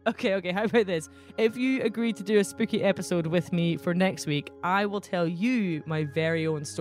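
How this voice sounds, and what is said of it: Usual voice. Nothing is said of it.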